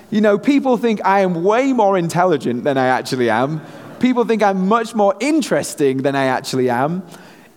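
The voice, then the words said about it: British accent. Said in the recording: “me being a Brit here in the US ... here, having this accent seems to serve me pretty well”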